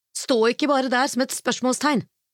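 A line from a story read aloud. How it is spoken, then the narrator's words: Sharp retort. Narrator (Norwegian): la hun skarpt til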